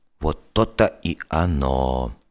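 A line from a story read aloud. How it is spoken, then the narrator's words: Quiet, confiding, drawn-out. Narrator (Russian): протянул Алехин и с огорченным лицом тихо доверительно сообщил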